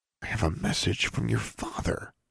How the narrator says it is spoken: he repeated, still whispering

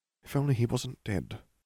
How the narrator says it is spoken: Harry muttered

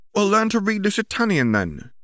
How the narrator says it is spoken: Ginny replied, maybe a little more sharply than she had intended

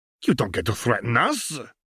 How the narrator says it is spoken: the Frenchman growled

